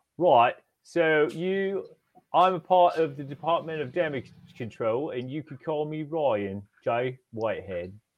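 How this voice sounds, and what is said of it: Put-on British accent. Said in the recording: “Can you tell us your name again, but in a British accent this time? ... I'm not going to do the accent the whole time.”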